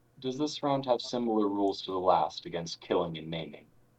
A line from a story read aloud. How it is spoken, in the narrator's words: sort of lets out an uncomfortable chuckle, and she says